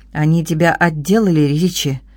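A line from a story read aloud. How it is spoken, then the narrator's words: Plain. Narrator (Russian): спросил Делл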